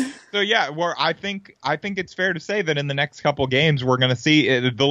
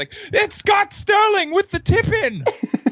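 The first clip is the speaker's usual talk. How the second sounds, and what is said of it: Put-on British commentator accent. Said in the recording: “They're going to have to work on their British accent.”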